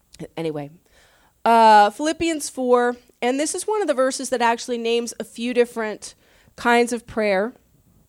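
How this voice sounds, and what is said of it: Congested voice with a cold. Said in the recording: “I need Kleenex. Sorry, I've got a little cold.”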